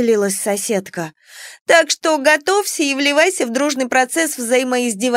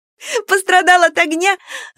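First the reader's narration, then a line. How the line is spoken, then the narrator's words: Laughing. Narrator (Russian): рассмеялась Кикимора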